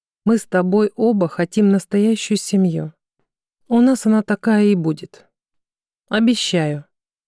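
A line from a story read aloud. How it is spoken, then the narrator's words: Quiet but confident. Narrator (Russian): Константин негромко, но уверенно сказал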